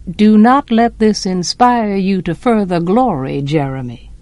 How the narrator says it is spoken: Atticus said dryly

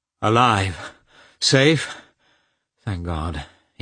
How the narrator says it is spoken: he muttered

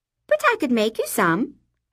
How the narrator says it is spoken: I said brightly

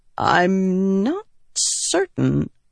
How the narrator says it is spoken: Elokar said hesitantly

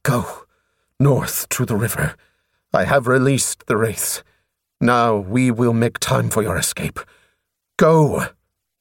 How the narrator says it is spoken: turned and hissed

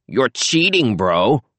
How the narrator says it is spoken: Bartholomew yelled back

